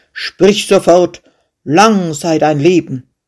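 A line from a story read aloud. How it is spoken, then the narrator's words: Angry call. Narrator (German): Verärgert rief der König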